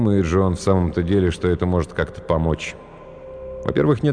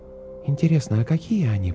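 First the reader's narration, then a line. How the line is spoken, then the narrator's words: Whisper. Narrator (Russian): прошептала Светлана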